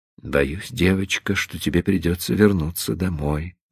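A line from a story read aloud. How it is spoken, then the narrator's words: Whisper. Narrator (Russian): прошептал он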